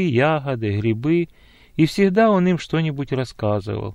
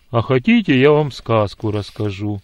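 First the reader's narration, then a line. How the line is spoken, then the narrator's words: Cheerful ringing voice. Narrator (Russian): бодрым звучным голосом спросил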